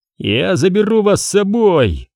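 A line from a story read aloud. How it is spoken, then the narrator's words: Joyful shouting. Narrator (Russian): радостно кричал Вескер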